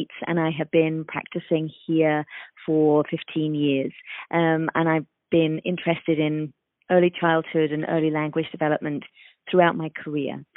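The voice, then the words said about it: London English accent. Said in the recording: “As you can probably tell from my accent, I am from London, England”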